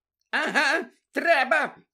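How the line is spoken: Shrieking. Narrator (Ukrainian): верещала місіс Фік

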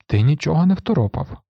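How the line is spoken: Sad interruption. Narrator (Ukrainian): сумно перебив його Грегор

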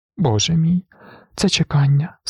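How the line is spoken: Sob. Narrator (Ukrainian): схлипнула вона

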